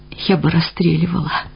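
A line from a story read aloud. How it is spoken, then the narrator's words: Muttered through teeth. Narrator (Russian): пробормотала сквозь зубы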